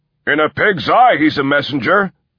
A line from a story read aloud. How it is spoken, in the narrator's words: shouted another